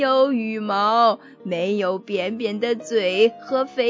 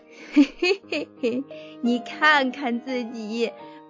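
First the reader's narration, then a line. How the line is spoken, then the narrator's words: Loud laughter. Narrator (Chinese): 三只鳄鱼大笑说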